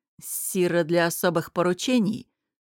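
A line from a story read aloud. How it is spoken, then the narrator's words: Furious, through clenched teeth. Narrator (Russian): сквозь зубы сказал Дестон, который был взбешен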